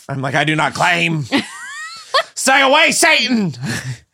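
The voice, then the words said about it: Put-on accent. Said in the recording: “That was a really good accent.”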